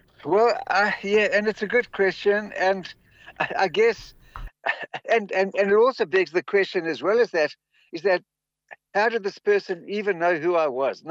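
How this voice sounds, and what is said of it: Mild South African accent. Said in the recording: “pick my accent ... You are not the most South African-sounding person I've ever spoken to, and I have no doubt that your South African accent is stronger speaking to me”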